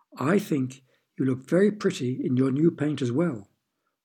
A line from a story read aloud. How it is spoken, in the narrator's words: 101 chuckled, for the first time since Iris could remember